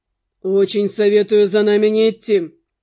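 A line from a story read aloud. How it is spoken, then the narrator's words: Cold warning. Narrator (Russian): холодно предупредил Дэн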